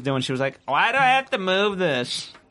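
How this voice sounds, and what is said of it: Badly done put-on accent. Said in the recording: “Again, worst accent ever”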